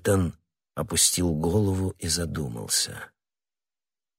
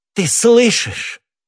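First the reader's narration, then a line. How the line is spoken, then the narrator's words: Loud cry. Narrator (Russian): громко вскричала миледи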